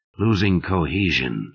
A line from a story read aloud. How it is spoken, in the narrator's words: muttered